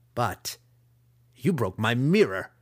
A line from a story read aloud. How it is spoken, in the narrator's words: the master growled